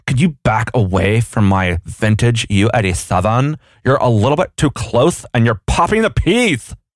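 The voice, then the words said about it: Put-on unidentified accent. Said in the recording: “Oh my gosh, that was amazing. Whatever accent that was.”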